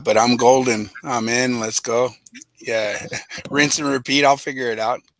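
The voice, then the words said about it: Hoarse, worn-out voice. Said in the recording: “The voice still good? ... my voice is pretty shot”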